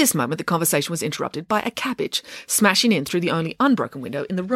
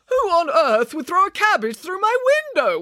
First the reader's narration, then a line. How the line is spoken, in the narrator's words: wailed Mr